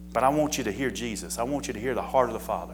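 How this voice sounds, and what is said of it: Slight Southern American accent. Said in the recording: “a little southern voice, accent”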